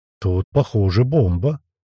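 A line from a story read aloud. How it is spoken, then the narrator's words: Nervous quiet voice. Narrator (Russian): Один из направивших на меня оружие сглотнув, тихо произносит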